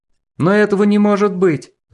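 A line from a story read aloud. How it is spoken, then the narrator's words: Exclaiming. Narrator (Russian): воскликнул Десяткин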